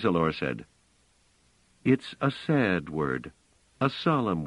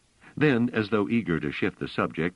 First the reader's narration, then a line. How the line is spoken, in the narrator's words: she said quickly